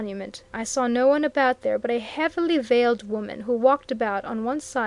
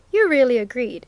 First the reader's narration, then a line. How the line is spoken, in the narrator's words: exclaimed Mr